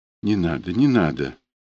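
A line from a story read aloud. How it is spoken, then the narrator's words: Whispering. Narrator (Russian): она замотала головой по подушке и зашептала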